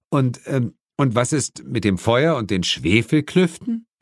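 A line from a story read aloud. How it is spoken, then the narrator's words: Muffled giggle. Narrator (German): Lilith hielt sich die Hand vor den Mund und kicherte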